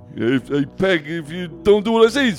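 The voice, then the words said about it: Poor impression of a sitcom character. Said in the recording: “that was a terrible Al Bundy impression”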